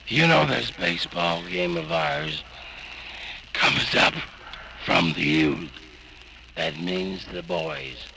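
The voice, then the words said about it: Voice sounds bad, strained. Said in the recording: “you know how bad my voice sounds. Well, it feels just as bad.”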